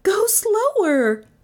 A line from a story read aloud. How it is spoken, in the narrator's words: Melissa cried